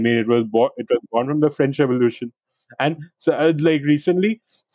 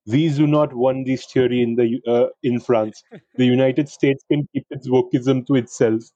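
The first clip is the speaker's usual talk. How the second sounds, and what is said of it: Attempted French accent, sounds Portuguese. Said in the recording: “how is that accent, actually, by the way? that sounds Portuguese, not French, dude, not French.”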